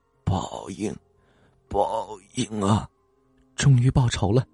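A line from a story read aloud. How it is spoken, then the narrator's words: Low murmur. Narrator (Chinese): 喃喃低语说道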